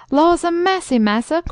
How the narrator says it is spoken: cried the old darkey

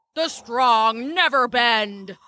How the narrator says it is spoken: answered the old oak, roaring

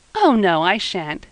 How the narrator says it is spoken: said Eppie, laughing

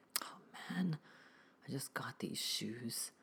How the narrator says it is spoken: mumbled

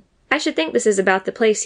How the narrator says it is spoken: he said

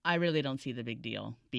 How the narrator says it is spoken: Beacon said flatly

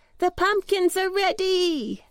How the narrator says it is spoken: they cried

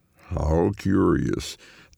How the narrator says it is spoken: the man drawls

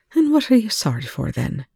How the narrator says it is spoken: Rush asked her, his tone deliberately light

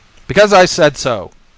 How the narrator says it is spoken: Kowalczyk shouted, surprised at his outburst and ashamed of it

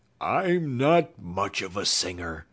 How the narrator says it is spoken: groaned the Cowardly Lion, beginning to tremble

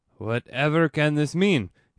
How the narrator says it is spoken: he exclaimed boldly

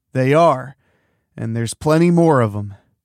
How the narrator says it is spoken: Leslie growled

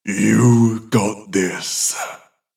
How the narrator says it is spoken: the voice growls

